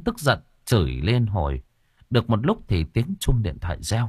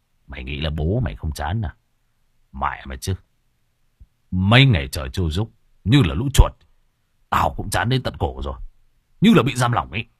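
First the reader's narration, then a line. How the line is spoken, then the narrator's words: Harsh gritted voice. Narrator (Vietnamese): Hùng gằn giọng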